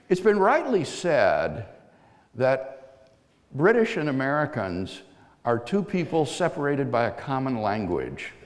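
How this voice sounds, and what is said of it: American accent. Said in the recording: “I speak with an American accent”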